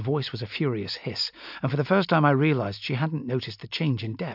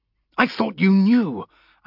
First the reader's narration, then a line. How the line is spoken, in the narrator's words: snapped back, feeling oddly defensive